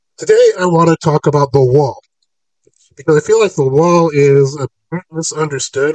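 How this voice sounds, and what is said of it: Hoarse voice from a cold. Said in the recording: “still fighting this cold, so you got to forgive my voice again. It's leaving, but yeah, got a couple of days to go”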